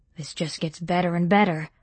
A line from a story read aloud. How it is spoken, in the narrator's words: muttered Ryan